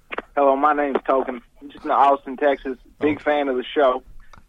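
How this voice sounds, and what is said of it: Convincing put-on accent. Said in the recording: “a very convincing accent, man.”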